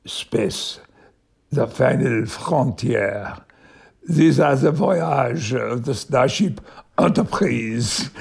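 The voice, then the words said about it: Put-on French accent. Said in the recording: “speaking Picard's lines with a French accent ... made it as impeccable a French accent as I could ... that's how I did it”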